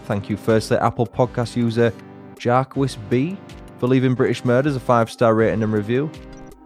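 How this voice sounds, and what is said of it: English accent. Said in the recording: “Love to hear the English accent.”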